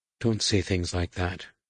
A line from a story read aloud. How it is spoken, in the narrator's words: murmured